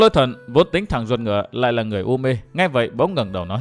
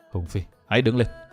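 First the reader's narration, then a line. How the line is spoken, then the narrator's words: Sighing, low deep voice. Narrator (Vietnamese): Vân Thiên Nhạc thở dài trầm giọng, hạ giọng nói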